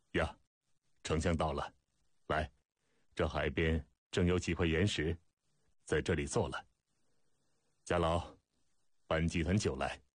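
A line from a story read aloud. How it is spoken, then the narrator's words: Smiling. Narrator (Chinese): 司马错笑道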